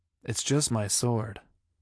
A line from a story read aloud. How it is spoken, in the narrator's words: he said stiffly